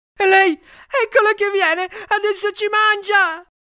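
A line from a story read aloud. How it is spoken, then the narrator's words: Shrieking. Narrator (Italian): Dickie strillò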